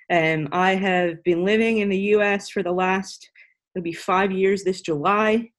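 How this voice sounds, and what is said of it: Irish accent. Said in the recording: “I'm Irish, so the accent's different.”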